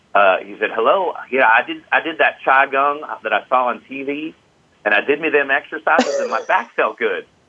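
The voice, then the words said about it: Put-on Midwest accent. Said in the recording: “I'll do my best as to interpret, to do a Midwest accent.”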